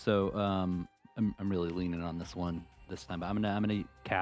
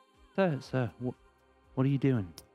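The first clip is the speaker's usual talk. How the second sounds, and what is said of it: Whispered line. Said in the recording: “whisper a message. And so I'm gonna whisper to him.”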